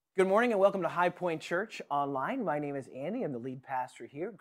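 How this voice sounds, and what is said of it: Slightly raspy voice from a cold. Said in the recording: “I've got a little bit of a cold here today, so you might have caught just a little bit of raspiness uh, in my voice.”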